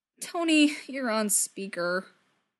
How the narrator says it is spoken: Steve groans, mortified

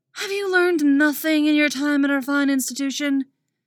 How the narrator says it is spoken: Dick exclaims with an over-the-top sigh

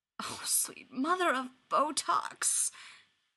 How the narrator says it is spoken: Ryan moans

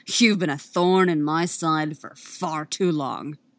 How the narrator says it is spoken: he snarls

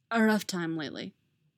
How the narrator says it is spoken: he says instead

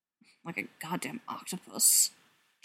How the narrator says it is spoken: John muttered

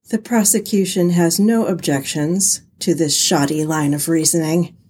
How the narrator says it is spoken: Edgeworth sighed

